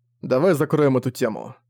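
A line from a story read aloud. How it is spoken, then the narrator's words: Said coldly. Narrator (Russian): холодно сказал Зориан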